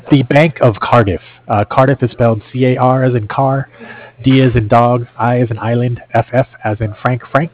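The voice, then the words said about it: Hoarse, fading voice. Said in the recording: “Sorry, I'm losing my voice here.”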